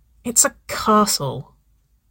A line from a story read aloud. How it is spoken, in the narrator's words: Ava sighed